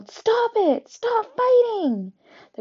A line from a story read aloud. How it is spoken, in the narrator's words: I yelled